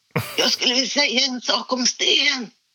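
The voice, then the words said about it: Strained, locked-up voice. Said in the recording (Swedish): “hur gick det med rösten då? Alltså den låste sig helt ... Men det lät ju bara så här”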